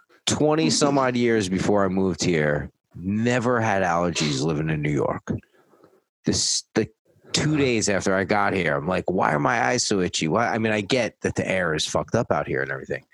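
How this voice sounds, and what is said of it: Slightly nasal, congested voice. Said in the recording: “my voice is a little nasally right now ... I've been sneezing ... allergies”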